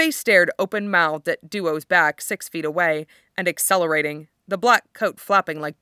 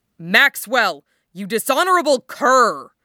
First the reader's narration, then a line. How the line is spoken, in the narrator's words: barked, breaking into a run